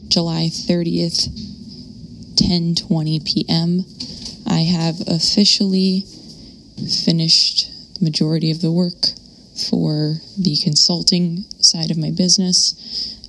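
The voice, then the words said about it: Tired, exhausted-sounding voice. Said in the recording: “you probably don't hear it in my voice because I'm exhausted”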